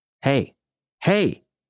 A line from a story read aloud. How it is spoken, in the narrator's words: almost shouted